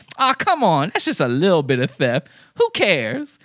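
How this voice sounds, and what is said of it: Mocking stereotyped character voice. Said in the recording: “doing that voice. ... that voice is racist”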